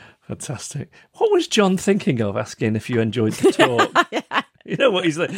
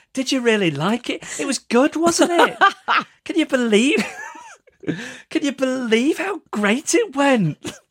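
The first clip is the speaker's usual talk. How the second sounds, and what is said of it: Imitates another person's voice. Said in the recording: “Good impression. ... Very good impression. Very good.”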